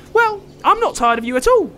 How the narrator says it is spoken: chirped Otis

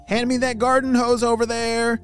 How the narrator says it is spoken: shouted Lincoln

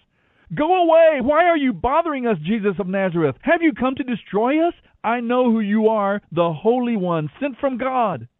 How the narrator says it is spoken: a man possessed by a demon began shouting at Jesus

